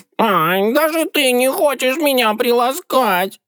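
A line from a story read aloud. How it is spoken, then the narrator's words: Howling cat. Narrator (Russian): Взвыл кот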